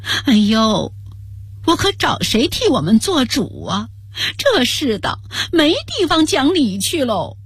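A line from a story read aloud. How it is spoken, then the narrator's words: Tearful woman from outside. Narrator (Chinese): 一个女生传进来带着哭腔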